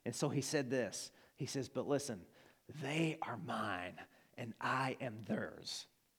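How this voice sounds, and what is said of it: Arkansas Southern American accent. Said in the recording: “that's my Arkansan accent.”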